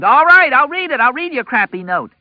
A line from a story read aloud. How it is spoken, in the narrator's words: She screamed